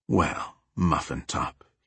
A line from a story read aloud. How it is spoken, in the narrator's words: he whispered